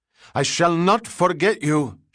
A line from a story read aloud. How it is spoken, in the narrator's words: shrieked